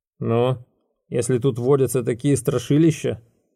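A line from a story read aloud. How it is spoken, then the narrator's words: Grumbling. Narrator (Russian): пробурчал Рода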